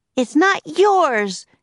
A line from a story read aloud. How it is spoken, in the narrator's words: shouted Annie